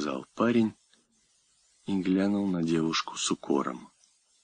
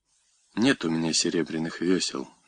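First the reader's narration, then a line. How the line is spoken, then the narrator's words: Plain. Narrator (Russian): говорит ей Платогон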